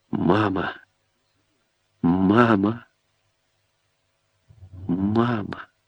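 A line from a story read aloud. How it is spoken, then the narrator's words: Dazed whisper. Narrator (Russian): шептала бескровными губами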